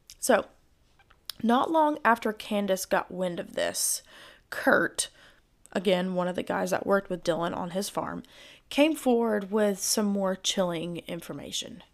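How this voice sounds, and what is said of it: Gravelly, strained voice. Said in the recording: “my voice just gave out there... my voice sounds like a little gravelly”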